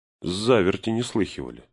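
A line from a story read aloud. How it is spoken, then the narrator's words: Plain. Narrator (Russian): сказал Фродо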